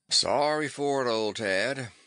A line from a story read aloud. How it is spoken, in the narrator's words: would drawl